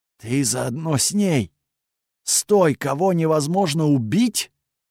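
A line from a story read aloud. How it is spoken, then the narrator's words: Hyena speaking through growls. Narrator (Russian): сквозь рычание я услышал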